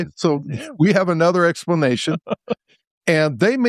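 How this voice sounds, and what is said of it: Usual voice. Nothing is said of it.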